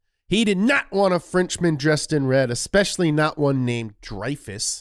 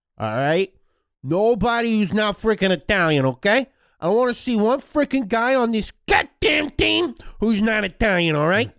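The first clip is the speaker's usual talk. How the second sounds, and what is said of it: Impression with a Brooklyn accent. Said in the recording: “Mussolini is from Brooklyn. ... That's my Mussolini impression.”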